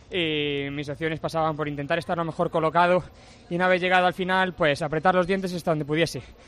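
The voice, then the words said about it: Andalusian Spanish accent. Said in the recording (Spanish): “qué bien te queda desde Tokio el acento andaluz. Es precioso escuchar desde España el acento andaluz.”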